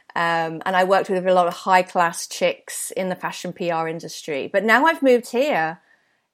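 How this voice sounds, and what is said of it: British London accent. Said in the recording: “I had a real London accent, a bit like Adele ... I have a British accent”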